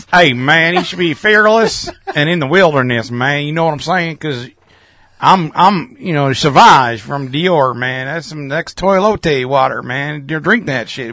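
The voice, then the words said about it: Put-on rural Southern US accent. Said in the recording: “Kentucky accent on it ... He's more of an Arkansas hick”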